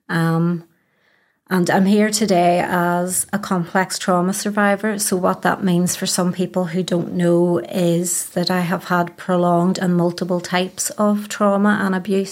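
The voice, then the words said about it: Belfast accent. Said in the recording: “I am born and bred in Belfast, as you can probably tell from the accent.”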